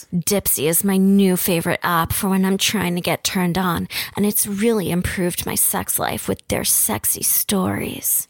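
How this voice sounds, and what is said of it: Sultry, sexy voice. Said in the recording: “doing her very sexy voice right now, which she's so good at”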